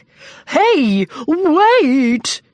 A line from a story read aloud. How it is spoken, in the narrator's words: He shouted